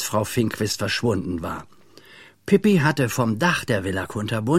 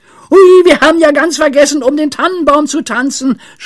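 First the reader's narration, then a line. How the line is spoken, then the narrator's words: Sudden shout. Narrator (German): schrie Pippi plötzlich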